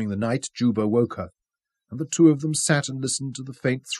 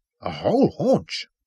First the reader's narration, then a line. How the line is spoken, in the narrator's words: muttering and shaking his head sorrowfully